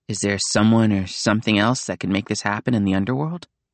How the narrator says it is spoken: Nico sighed

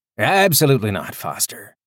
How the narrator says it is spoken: Calder said cheerfully

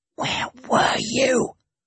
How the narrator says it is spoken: I asked, in a furious whisper

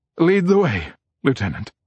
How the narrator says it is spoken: His voice breaks as he says

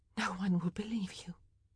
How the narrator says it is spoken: Penelope whispered

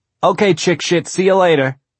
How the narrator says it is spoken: Norma yelled

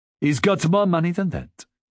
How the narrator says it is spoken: Pierre said

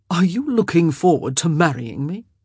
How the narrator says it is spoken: He asked in an amused voice

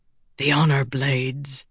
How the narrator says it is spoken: Amaram whispered

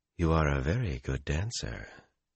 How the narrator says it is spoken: in that stroking voice

